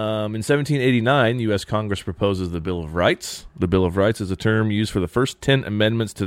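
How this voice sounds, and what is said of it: Usual voice. Nothing is said of it.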